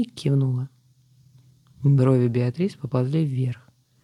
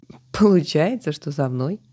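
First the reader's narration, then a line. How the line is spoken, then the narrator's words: Giggling. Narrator (Russian): хихикнула подруга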